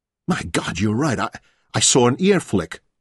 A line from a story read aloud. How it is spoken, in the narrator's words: he exclaimed